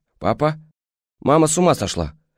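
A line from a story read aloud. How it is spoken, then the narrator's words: Completely calm. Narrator (Russian): совершенно спокойно сообщила она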